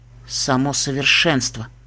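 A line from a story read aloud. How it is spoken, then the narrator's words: Enchanted whisper. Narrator (Russian): зачарованно прошептала Типпи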